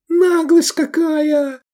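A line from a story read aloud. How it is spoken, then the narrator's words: Old woman shrieking. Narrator (Russian): завопила четвертая, согнутая старостью в три погибели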